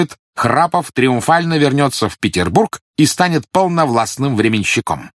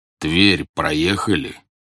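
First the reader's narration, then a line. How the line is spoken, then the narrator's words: Deep-voiced question. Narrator (Russian): густым голосом спросил генерал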